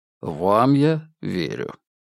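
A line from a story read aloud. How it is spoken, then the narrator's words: Calm. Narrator (Russian): спокойно сказал он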